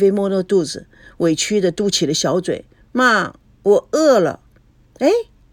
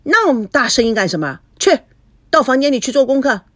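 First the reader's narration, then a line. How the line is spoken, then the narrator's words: Shouting. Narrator (Chinese): 吴梦玲对着菲菲喊道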